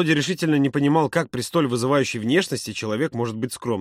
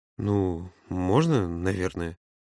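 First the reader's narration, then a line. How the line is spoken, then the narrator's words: Timid mumbling. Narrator (Russian): промямлил тот, боясь оскорбить Юру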